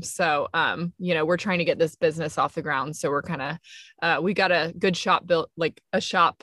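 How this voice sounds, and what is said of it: Slight Alabama Southern accent. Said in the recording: “I thought I heard a little Alabama in your voices there.”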